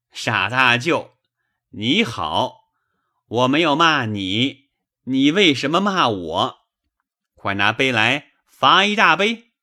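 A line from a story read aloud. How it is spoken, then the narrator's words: Laughing. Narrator (Chinese): 贾强也忍不住的笑，说道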